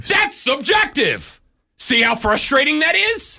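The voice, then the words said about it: Yelling in frustration. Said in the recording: “Why are you yelling?”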